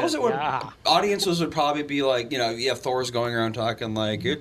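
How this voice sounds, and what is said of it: Usual voice. Nothing is said of it.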